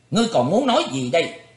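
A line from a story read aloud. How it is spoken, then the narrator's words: Old man's shouted question. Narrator (Vietnamese): Một lão đạo sĩ quát hỏi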